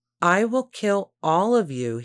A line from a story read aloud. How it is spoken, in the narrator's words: he shouted repeatedly